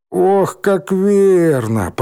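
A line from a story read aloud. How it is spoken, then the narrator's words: Moaning. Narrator (Russian): простонал Рыжий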